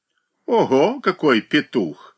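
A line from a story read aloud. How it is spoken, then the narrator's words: Silly laugh. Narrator (Russian): глупо засмеялся Габлиц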